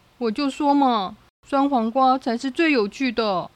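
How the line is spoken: Loud, dazed. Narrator (Chinese): 大熊迷迷蒙蒙的，大声说

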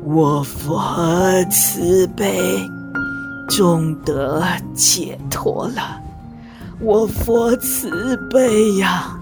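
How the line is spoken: Murmuring to himself. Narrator (Chinese): 喃喃自语说

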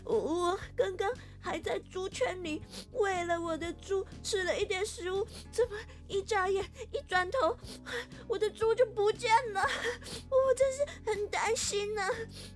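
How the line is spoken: Woman crying while speaking. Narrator (Chinese): 有一个妇人一边哭一边说

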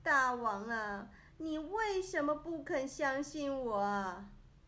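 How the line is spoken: Sobbing, complaining. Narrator (Chinese): 屈原抱头痛哭，埋怨着

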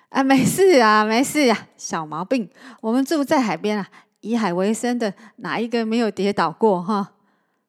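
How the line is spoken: Laughing. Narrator (Chinese): 大姑姑笑着说

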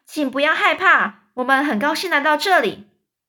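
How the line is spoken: Shouting. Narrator (Chinese): 詹姆斯继续喊着说

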